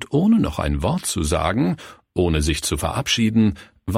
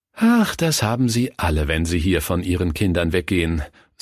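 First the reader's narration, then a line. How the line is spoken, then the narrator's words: Sighing. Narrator (German): seufzte die Diakonisse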